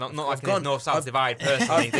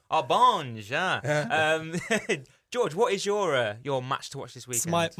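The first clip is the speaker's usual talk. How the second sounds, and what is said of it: Poor put-on Italian accent. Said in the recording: “that was a horrible Italian accent.”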